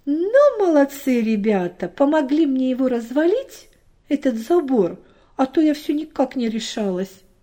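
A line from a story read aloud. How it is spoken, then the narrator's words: Cheerful grandmother. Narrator (Russian): Бабушка весело сказала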